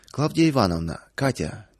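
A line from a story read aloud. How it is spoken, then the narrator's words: Somewhat solemn. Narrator (Russian): несколько торжественно начал Павел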